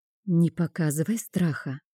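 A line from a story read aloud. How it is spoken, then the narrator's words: Whispered. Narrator (Russian): шепнула я Бонни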